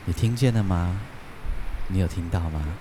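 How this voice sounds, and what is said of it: Speaking very softly, hushed. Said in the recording (Chinese): “小声说话，因为我觉得好像会吵到别人，这因为这太安静了。所以我就会很小声的说话”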